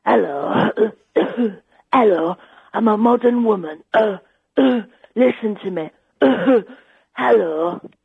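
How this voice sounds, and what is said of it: Imitates another person's voice. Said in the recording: “I can do you a nice impersonation ... It's Jenny Eclair ... it was so good”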